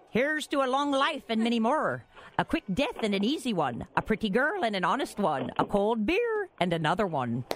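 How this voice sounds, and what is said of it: Put-on Irish accent. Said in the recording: “Irish accent ... lay some Irish on you ... that was real good ... That was fantastic”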